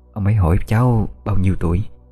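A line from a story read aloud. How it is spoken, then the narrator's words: Soft prompting. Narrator (Vietnamese): Bà Xuân khẽ nhắc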